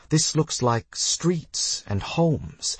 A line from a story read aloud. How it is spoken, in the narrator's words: I asked Iolorothi